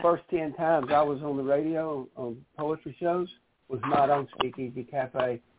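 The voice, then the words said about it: Speaks with a noticeable accent. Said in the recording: “she loves your accent”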